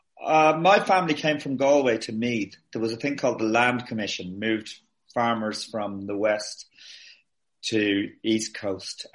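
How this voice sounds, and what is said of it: Posh Irish accent. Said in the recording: “I just ended up with what is considered a posh accent here as well”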